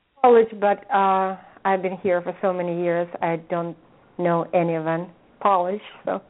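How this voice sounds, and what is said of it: Polish accent. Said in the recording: “I know you've got an accent. Are you Polish”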